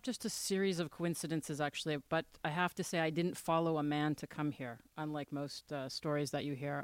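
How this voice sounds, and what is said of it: Slight Canadian accent. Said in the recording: “I hear a little Canadian accent there.”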